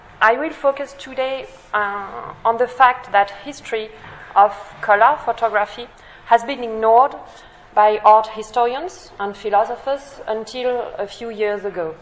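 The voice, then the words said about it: French accent in English. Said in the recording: “my poor English and my French accent”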